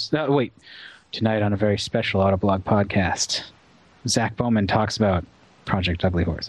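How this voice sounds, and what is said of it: Announcer voice. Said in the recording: “my announcer voice? ... it was very good.”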